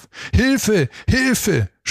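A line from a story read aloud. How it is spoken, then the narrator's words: Screaming as loud as possible. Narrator (German): schrie er so laut er konnte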